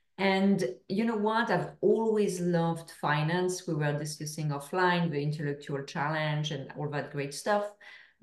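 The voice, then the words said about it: French accent. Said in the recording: “As I'm sure everyone can hear to my accent, I'm from France.”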